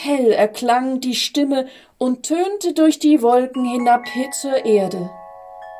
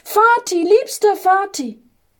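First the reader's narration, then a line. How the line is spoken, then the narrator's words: Joyful little angel calling. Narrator (German): rief der kleine Engel voller Freude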